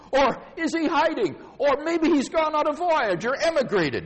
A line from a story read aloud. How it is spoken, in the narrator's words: yelled and laughed